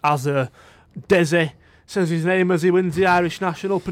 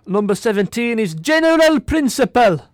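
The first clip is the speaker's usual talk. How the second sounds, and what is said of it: Attempted Irish accent. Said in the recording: “That was an attempt at an Irish accent ... pronouncing every single letter in the word in his name”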